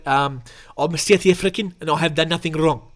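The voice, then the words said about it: Put-on South African accent. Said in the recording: “Let's do a South African voice. I've got to drop into it. ... That is pretty good.”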